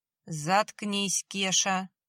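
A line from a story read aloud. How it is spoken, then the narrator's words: Through clenched teeth. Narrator (Russian): процедил прапор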